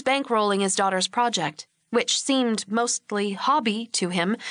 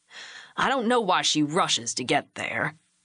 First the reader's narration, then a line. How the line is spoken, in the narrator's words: Hugh grumbled back